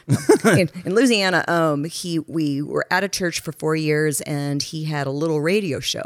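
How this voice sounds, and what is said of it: Louisiana accent. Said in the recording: “you can hear my accent now because I'm Louisiana”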